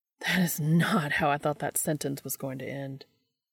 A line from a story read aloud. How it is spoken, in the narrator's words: Dean says breathlessly